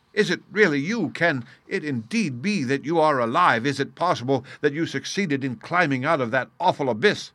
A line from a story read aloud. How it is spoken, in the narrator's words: I cried